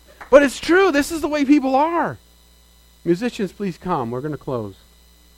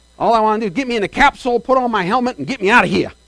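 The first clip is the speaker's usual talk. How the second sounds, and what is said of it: Put-on Southern US accent. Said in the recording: “talk like a southerner”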